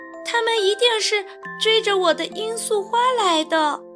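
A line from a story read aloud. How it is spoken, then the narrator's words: Shouting with mouth full. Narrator (Chinese): 凯蒂还来不及咽下塞在嘴里的草莓，就大叫道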